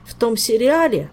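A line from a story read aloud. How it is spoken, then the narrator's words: Mournful, wronged-maiden voice. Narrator (Russian): скорбным голосом обманутой девицы изрек Жак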